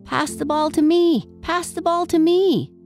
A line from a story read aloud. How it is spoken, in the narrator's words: yelled